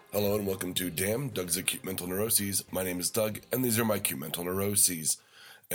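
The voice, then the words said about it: Lowered, sick-sounding voice. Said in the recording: “As you can probably hear from my voice, it's dropped down about half an octave, which means I'm sick ... hopefully I'll be able to breathe through my nose”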